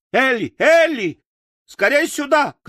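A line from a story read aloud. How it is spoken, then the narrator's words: Shouting. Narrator (Russian): кричала она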